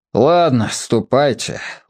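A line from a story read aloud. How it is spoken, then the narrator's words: Said wearily. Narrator (Russian): устало сказал директор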